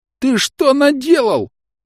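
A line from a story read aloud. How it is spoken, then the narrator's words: Shrieking. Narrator (Russian): завизжал трактирщик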